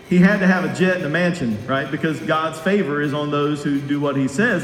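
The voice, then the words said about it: Sarcastic, tongue-in-cheek delivery. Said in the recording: “my tongue is in my cheek. I'm being sarcastic.”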